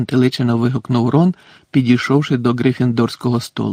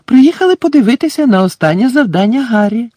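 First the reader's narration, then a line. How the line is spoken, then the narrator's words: Cheerful announcement. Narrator (Ukrainian): радісно повідомила місіс Візлі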